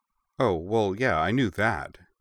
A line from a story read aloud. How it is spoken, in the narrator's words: June said